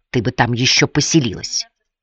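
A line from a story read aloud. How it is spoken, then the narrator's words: Quiet, heartfelt mutter. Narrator (Russian): та негромко, но с чувством пробормотала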